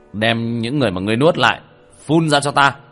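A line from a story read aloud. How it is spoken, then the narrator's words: Cold snort, barked. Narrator (Vietnamese): Tiểu Thất hừ lạnh một tiếng, quát lên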